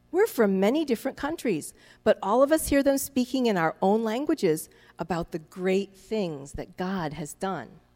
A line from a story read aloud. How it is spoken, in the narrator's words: In amazement and wonder, they exclaimed